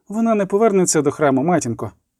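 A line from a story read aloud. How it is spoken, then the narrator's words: Said quietly. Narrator (Ukrainian): сказала тихо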